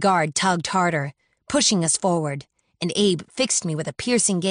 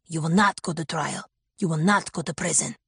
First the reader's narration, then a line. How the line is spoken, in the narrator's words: he hissed, out of the guard's hearing